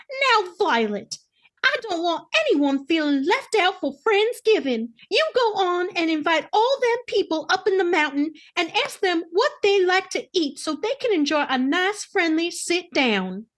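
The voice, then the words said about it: Imitates another person's voice. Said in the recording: “said in my best Millie Kay voice”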